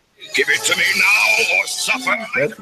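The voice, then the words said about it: Gruff wrestler-style character voice. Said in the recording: “a little bit of wrestling accent in there, a little wrestling voice ... he would do a wrestler voice”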